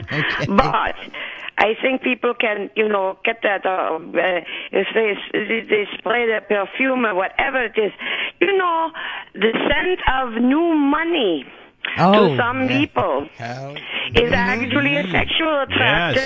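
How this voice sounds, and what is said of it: Speaks with an appealing accent. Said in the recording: “your voice has got me ready to marry you right now ... I love your accent.”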